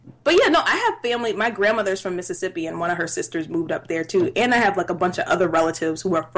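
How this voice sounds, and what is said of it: Usual voice. Nothing is said of it.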